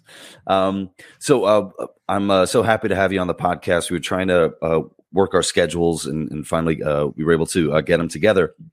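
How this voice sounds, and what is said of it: Congested, deep stuffy voice. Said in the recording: “I have a wicked cold right now... my nose is stuffed, my ears are stuffed... you sound like James Earl Jones, a nice deep voice”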